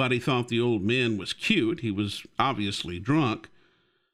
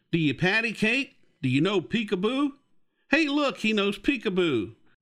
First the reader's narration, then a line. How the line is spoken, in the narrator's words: the man began shouting from across the room